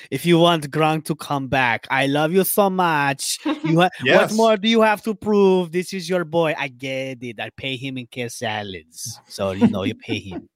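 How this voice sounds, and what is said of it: Bad Gisele Bündchen impression. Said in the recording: “That was a really bad Giselle impression.”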